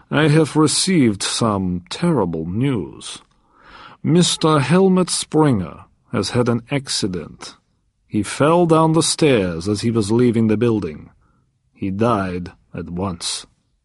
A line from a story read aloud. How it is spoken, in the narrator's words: said sadly